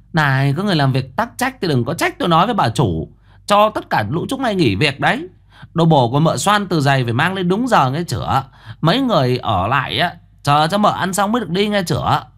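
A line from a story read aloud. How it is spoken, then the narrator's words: Shrill woman's voice. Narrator (Vietnamese): Giọng mụ the thé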